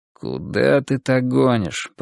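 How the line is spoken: Grumbling. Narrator (Russian): проворчал Переверзев

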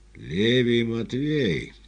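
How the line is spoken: Hoarse sick man's question. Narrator (Russian): хриплым голосом спросил больной

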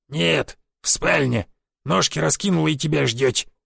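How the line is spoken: Old man's grumble. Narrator (Russian): проворчал дед

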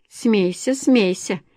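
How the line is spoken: Snide. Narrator (Russian): ехидно

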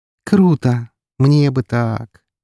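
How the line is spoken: Dreamy drawl. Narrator (Russian): мечтательно протянула девушка

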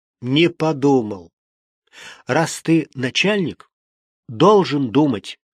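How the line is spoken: Plain. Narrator (Russian): ответила Валентина Михайловна

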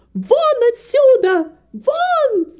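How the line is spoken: Shouting woman. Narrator (Russian): закричала Нэнси

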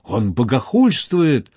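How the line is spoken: Exclaimed in unison. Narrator (Russian): разом воскликнули служители враждующих культов

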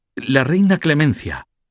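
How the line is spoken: Exclaimed. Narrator (Spanish): exclamó Gucho

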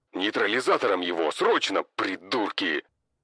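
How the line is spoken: Roared. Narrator (Russian): Взревел командир

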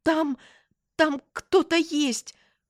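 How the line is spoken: Forced out. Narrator (Russian): выдавила я

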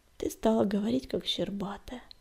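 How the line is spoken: Gentle, affectionate. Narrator (Russian): ласково сказал ей Огнегриф

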